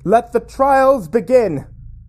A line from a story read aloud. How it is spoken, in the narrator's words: Kallus shout